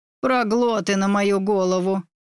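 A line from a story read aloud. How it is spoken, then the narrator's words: Irritated outburst. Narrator (Russian): выдала раздраженно Дина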